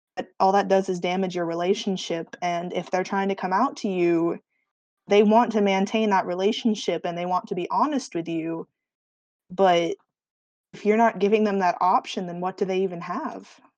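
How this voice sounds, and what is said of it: Speech turns noticeably Southern accent. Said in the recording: “You went very southern there... Your accent got very southern.”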